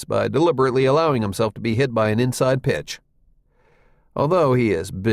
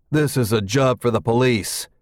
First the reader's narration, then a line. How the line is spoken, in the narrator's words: One of the Central City players says grimly